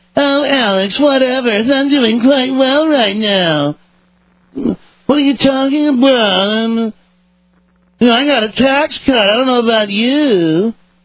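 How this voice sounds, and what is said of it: Mocking yuppie voice. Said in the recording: “Let me do the yuppie voice.”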